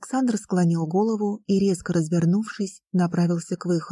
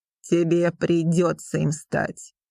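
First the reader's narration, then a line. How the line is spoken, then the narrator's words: King's growl. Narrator (Russian): рыкнул царь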